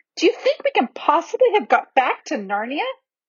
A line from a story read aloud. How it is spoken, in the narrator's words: exclaimed Lucy